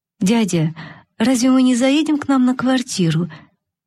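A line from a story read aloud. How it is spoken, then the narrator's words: Timid girl asking. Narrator (Russian): несмелым голосом спросила девочка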